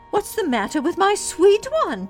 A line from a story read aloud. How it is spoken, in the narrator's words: cried Dorothy